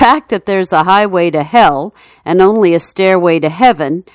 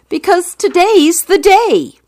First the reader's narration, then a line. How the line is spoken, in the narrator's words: The man yells